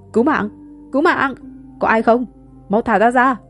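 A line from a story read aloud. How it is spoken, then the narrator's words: Young man crying out. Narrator (Vietnamese): Thanh niên la lên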